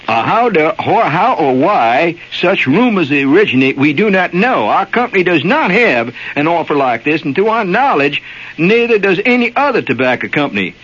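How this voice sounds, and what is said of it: Put-on North Carolina accent. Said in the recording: “I'll have to use my North Carolina accent, which is a very poppy accent.”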